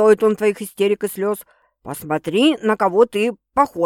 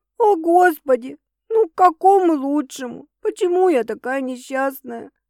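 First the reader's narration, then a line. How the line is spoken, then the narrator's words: Hiccuping through tears, sobbing. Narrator (Russian): начинаю икать сквозь слезы, всхлипывая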